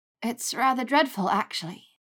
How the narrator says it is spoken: she sighed

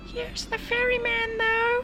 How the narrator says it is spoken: cried a tiny voice

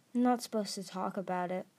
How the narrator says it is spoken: Starflight said stiffly

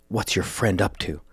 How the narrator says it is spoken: Sykes whispered into Edgar's ear

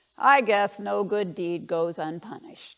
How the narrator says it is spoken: one of them said, remembering and chuckling about that incident

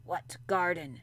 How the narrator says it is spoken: he said in a rough voice

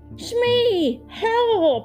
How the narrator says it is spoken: shouted the pirate as he lost his balance and found himself hanging by his hook just above the crocodile's open jaws

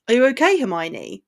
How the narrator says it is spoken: Tonks asked

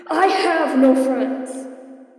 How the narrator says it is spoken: Roofstyle shouts

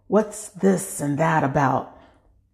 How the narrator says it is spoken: he whispers

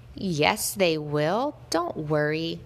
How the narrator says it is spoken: a voice said

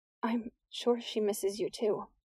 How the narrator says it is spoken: Nick whispered

